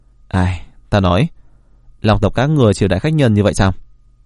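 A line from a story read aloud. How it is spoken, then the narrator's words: Angry. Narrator (Vietnamese): Phật Vị Dương được giải thoát, nhất thời trầm tĩnh trở lại, tức giận nói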